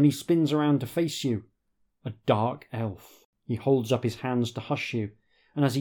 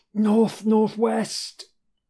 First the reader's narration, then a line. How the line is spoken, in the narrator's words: he croaks